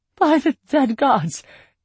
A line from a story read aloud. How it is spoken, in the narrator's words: the Empress cried out into the night